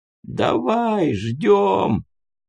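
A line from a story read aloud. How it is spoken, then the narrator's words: Hoarse reply. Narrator (Russian): ответил хриплый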